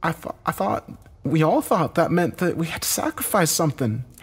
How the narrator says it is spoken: Heather said, her voice shaking

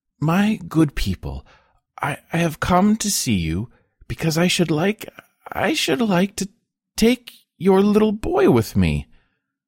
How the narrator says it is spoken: the woman, in a broken, trembling voice, began

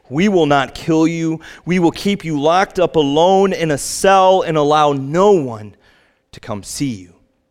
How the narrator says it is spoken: The captain screamed into his face

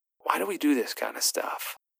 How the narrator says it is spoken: I whispered

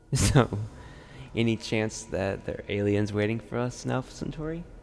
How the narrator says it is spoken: half-heartedly laughed out

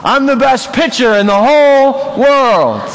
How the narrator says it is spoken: The boy responds, shouts to everyone

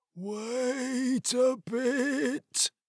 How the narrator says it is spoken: said the medium in a strange voice

